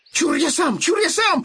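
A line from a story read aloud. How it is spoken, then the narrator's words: Piglet shouting. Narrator (Russian): закричал поросенок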